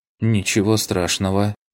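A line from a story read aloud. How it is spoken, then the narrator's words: Slightly husky, young woman. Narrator (Russian): слегка сиплым голосом произнесла девушка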